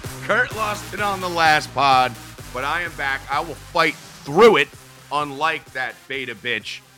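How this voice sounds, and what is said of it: Strained, failing voice. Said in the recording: “losing my voice.”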